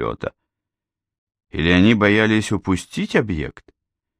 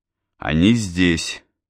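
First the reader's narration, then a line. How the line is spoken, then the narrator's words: Plain. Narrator (Russian): сказал я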